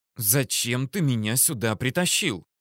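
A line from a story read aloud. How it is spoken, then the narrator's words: Hissed. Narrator (Russian): прошипела Алина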